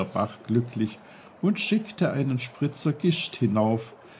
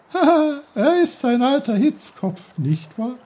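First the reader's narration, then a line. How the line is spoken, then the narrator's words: Giggling brook. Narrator (German): kicherte der Bach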